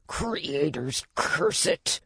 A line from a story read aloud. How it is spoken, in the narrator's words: Dewdrop snarled, sounding aggrieved